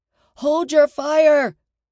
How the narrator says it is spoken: shouted

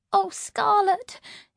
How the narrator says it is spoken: sobbed

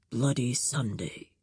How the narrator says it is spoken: he muttered

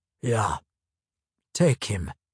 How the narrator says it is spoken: rumbled a second voice

